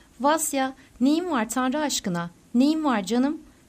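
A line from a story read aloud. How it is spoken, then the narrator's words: Crying out. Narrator (Turkish): diye haykırdı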